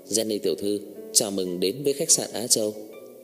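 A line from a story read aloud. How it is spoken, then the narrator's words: Respectful smiling. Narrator (Vietnamese): Tổng quản lý khách sạn tôn kính mỉm cười nói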